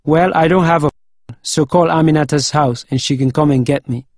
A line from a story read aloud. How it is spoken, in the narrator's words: my uncle giggled